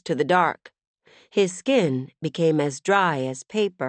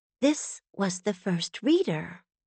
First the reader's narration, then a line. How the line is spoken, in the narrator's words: Brevity whispered with wonder